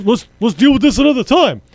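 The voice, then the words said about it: Bernie Sanders impression. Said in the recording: “in my Bernie accent”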